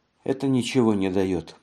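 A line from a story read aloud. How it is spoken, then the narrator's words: Sigh. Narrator (Russian): вздохнула Матильда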